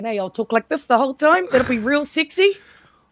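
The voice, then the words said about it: Exaggerated New Zealand accent. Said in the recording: “I'll make sure I use my full Kiwi accent.”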